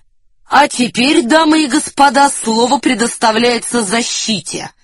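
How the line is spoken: Loud announcement. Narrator (Russian): громко объявил Девре

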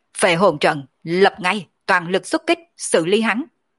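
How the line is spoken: Sharp commanding shout. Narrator (Vietnamese): Mộng đại tướng quân trực tiếp quát

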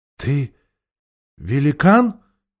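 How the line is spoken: Quiet question. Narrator (Russian): тихо спросил Шаста

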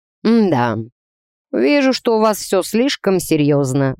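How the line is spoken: Sighing. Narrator (Russian): вздохнул Клаус

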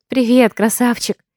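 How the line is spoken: Tender cooing. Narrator (Russian): Ласково воркую я

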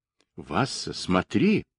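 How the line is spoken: Quietly. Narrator (Russian): он тихо сказал

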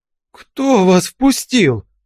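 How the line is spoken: Shrill squeal. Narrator (Russian): взвизгнул он

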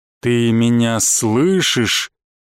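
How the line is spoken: Flat cold voice. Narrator (Russian): бесцветным холодным голосом произнес мой внезапный союзник

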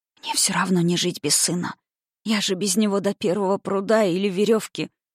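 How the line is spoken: Whisper. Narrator (Russian): прошептала она

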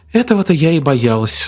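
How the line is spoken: Sighing. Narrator (Russian): вздохнула брюнетка

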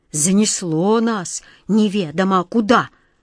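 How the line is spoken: Irritated grumbling cat. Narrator (Russian): раздраженно ворчал кот Васька

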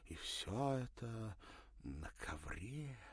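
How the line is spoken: Breathless. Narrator (Russian): выдохнула София

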